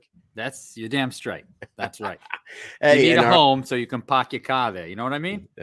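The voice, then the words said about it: Rhode Island accent. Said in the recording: “that Rhode Island accent”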